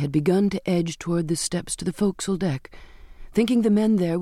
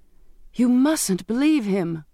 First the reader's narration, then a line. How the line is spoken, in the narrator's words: begged